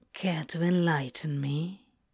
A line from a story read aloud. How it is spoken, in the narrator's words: Crowley purred